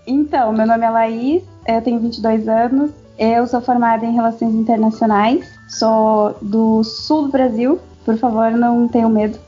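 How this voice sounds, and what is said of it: Slight regional Brazilian accent. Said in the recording (Portuguese): “dá pra perceber pelo um pouquinho do sotaque. Eu fiquei pelo assim, sotaque.”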